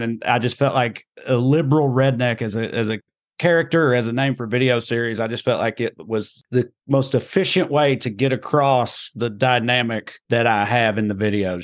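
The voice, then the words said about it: Rural Tennessee Southern accent. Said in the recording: “I grew up in Clay County, Tennessee ... I'm the most seemingly redneck person that most people encounter just from like my accent, the way I talk”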